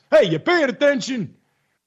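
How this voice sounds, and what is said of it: Put-on Italian accent. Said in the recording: “to do my Italian voice? ... How about the Italian voice?”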